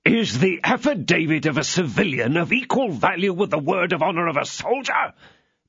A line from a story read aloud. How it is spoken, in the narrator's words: demanded Treville fiercely